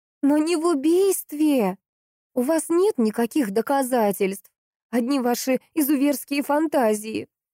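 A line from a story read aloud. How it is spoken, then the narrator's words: Desperate scream. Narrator (Russian): закричала Поликсена, кусая губы от отчаяния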